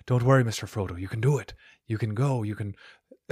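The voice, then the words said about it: Imitates the character Sam's voice. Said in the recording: “my Sam impression”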